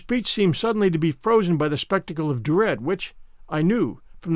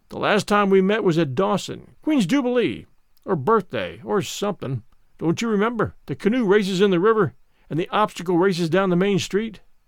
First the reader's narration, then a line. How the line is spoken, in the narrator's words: his voice sounded hearty and genial, as he said